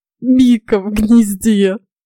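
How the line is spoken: Strained, tearful. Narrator (Russian): с трудом выдавил из себя Фрей

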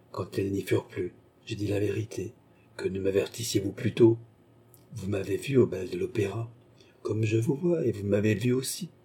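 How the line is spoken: Prince, low voice. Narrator (French): dit le prince à voix basse

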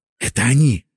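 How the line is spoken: Whispered. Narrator (Russian): шепнул я Мосяню

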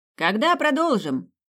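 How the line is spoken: Son shouting out. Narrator (Russian): выкрикнул один из сыновей

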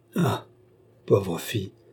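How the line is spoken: Murmur. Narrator (French): murmura

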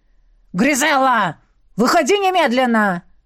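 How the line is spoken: Deafening bark. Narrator (Russian): гаркнул Дуари так, что у меня заложило уши и болью отозвалось в голове

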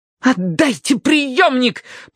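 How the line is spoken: Furious hiss. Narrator (Russian): прошипел Уордер в ярости

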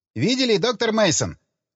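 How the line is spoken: Shouting close to ear. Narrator (Russian): Приблизив лицо к моему уху, прокричал Джек Строу

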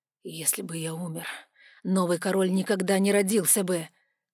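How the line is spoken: Hoarse exhale. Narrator (Russian): хрипло выдохнул Вайларион

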